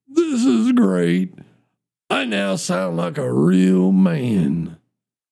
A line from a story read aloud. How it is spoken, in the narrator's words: says in a deep, manly voice